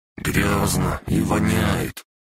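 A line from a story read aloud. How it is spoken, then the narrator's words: Grumbled. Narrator (Russian): проворчал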